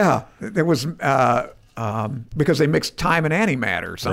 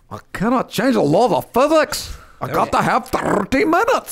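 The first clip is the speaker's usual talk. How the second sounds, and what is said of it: Cartoony, poor Scottish Scotty impression. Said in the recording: “You do the worst Scotty impersonation ever... your like Scottish Scotty. Is rough... It was very cartoony.”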